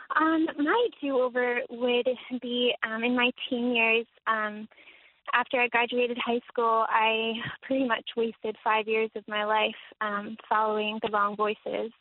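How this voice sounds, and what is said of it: Naturally high-pitched young-sounding voice. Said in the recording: “Do you have a high voice, or are you young?... I just have a high voice... you have a darling voice”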